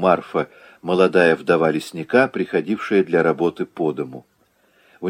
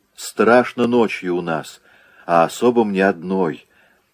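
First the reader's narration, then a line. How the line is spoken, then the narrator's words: Languid sigh. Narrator (Russian): томно вздохнула Марфа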